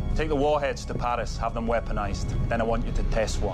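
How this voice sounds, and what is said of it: Unconvincing put-on Scottish accent. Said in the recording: “just on the accent there, I mean, it sounds pretty ropey to me ... Robin, who works on the programme here, is Scottish. And he can, in fact, confirm, our Scottish correspondent, that that is rotten ... I didn't think it was good.”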